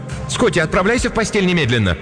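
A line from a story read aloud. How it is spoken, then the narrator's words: Shouted again. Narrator (Russian): Кристин в 3-й раз крикнула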